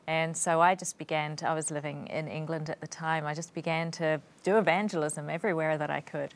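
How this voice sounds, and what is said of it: Non-English island accent. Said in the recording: “you don't have an English accent ... Your accent is from another island.”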